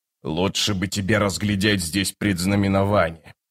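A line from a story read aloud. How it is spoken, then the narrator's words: Chieftain's mutter. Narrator (Russian): пробормотал вождь клана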